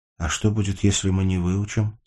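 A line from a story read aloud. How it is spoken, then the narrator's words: Plain. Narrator (Russian): спросила Сашка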